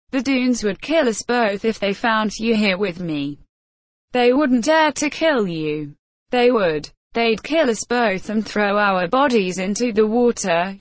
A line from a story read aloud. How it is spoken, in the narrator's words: she said